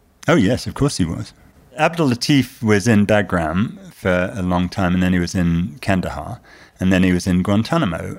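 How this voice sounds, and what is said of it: British accent. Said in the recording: “my patent British accent”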